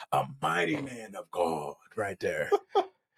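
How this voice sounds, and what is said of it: Preacher voice. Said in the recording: “I put my preacher voice on.”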